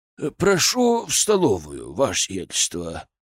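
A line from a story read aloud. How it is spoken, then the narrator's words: Solemn announcement. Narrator (Russian): торжественно сказал он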